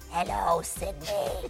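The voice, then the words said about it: Ghostface killer voice impression. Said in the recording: “your ghost face impression.”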